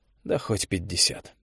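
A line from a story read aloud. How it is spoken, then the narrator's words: Mutter. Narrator (Russian): пробормотал Олег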